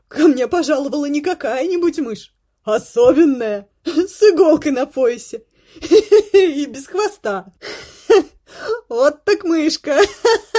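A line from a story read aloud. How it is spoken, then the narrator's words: Laughing to tears. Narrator (Russian): Она хохотала, закинув голову и оттирая выступившие на глазах слезы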